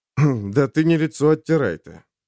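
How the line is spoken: Gloomy young male snort. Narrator (Russian): мрачно хмыкнул парень

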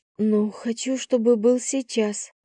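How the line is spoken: Breathy exhale. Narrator (Russian): выдохнула

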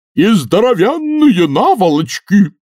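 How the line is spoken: Furious yell. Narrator (Russian): заорал старший Ренглер и в ярости

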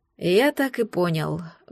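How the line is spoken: Sighing. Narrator (Russian): вздохнул Люциус

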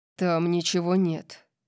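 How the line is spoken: Growled. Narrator (Russian): прорычал он

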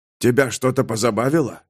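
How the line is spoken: Hoarse male whisper. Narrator (Russian): хрипло прошептал он

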